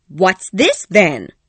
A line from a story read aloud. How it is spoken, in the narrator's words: said loudly